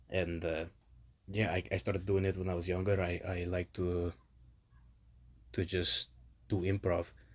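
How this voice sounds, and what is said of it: Spanish accent like Antonio Banderas. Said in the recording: “Kind of reminiscent of Antonio Banderas or Zorro. Puss in Boots ... This is the character Diego. He's from España.”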